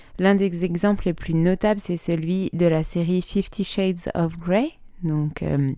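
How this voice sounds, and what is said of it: French accent pronouncing English title. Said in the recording (French): “désolé pour mon accent”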